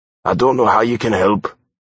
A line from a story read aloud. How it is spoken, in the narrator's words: I told him, my voice harsh from lack of use